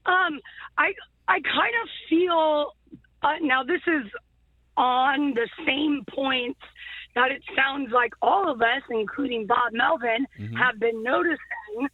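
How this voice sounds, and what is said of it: Hoarse, strained voice. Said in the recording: “I'm a little bit losing my voice from yelling at the TV”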